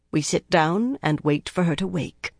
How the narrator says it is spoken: she said in a calm voice

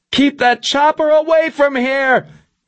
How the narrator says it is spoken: Milosevic screamed through the door

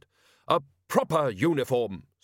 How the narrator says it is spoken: snapped the woman

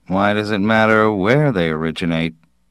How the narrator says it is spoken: Fermetti said smoothly

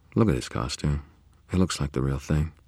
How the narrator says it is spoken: I murmured over my shoulder

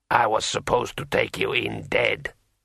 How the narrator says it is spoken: muttered Khoi Sedra sullenly

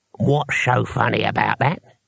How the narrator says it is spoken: he asked, and his voice had knuckles in it

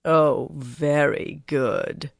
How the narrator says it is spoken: Tharava murmured

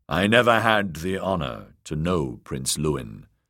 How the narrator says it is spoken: Sir Aris said

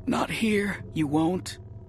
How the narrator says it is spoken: we gasped

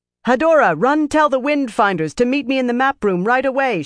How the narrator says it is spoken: she shouted without slowing

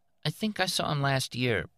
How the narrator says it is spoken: Betty said hesitantly

